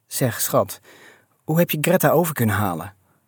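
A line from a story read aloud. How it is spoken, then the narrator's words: Plain question. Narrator (Dutch): vroeg ze eindelijk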